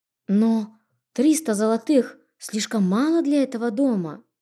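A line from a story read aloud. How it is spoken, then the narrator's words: Bewildered mutter. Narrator (Russian): растерянно пробормотала я, ошарашенно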